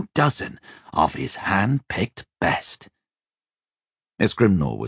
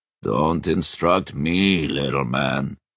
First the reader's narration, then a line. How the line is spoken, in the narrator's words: Iskrimnor growled